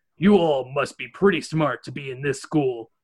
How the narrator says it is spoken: he grumbles

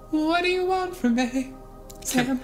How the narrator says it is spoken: Kimber whimpered

